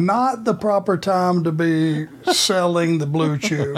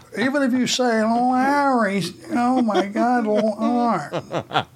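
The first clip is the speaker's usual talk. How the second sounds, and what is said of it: Imitates another person's voice. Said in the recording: “that Larry impersonation”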